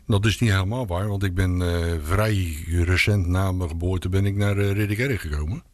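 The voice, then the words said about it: Rotterdam Dutch accent. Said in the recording (Dutch): “Ook een Rotterdammer? ... Oh, vandaar je accent.”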